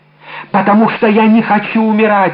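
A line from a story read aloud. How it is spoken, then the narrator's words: Desperate, struggling exclamation. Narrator (Russian): воскликнула, пытаясь вырваться из рук палача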